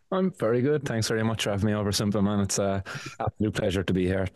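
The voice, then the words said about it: Irish accent. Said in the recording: “an Irish cannabis activist. The accent might have given it away there a little bit”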